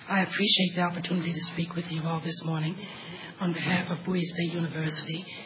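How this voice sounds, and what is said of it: Impaired, unwell-sounding voice. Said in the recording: “Please excuse my voice. I'm having some allergy problems this morning.”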